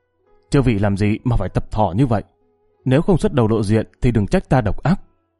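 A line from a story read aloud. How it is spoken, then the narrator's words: Harsh, stern shout. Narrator (Vietnamese): Bỗng chàng gằn giọng quát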